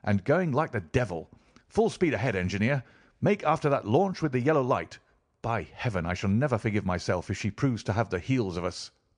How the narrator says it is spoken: exclaimed Holmes

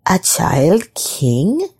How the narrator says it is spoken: she muttered

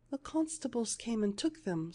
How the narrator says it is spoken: sobbed the little maid

